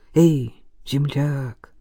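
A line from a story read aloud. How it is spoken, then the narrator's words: Tender whisper. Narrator (Russian): прошептал ласково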